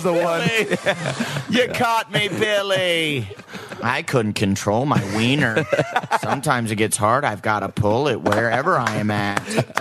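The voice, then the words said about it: Weird put-on silly voice. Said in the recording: “I'm doing this weird voice.”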